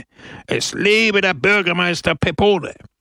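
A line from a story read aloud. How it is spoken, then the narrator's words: Crowd roaring. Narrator (German): brüllte die Menge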